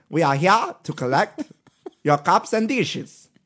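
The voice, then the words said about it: Put-on comedic foreign accent. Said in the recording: “I don't know what kind of accent that was, but that was good ... It's a little Borat.”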